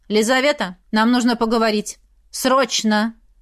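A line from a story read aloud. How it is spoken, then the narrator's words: Loud urgent. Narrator (Russian): Илья громко произнес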